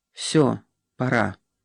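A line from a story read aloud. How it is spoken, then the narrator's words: Quiet. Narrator (Russian): решила Ева и тихо сказала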